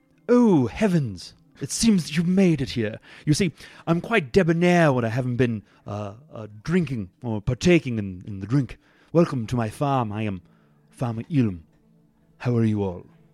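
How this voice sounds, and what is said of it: Put-on English accent. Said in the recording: “I think it was English, so let's see if I can do an English accent.”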